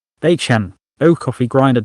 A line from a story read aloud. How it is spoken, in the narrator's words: David said